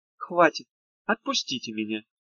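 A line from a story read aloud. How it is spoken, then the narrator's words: Calm request, girl. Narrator (Russian): Девушка спокойно попросила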